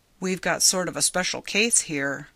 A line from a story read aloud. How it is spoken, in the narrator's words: Ryanson said evenly